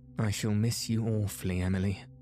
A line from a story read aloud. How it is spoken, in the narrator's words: she said with a sigh